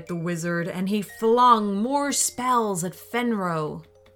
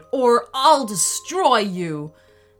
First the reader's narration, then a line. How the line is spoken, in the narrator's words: the wolf shouted